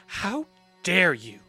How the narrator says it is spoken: Haojin hisses, tears pricking her eyes

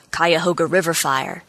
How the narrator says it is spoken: he said

